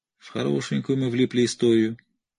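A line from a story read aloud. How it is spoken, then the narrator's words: Sad speech. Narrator (Russian): печально проговорил Кирби, скованный по рукам и ногам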